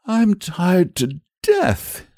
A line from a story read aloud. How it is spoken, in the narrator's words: he wailed